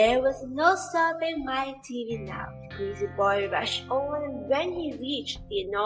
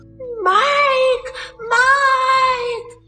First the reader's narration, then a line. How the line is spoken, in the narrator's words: screamed Mrs